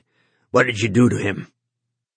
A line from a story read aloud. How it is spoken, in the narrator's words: Don Denny said harshly